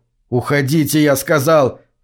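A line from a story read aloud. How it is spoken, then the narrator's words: Shout. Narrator (Russian): крикнул он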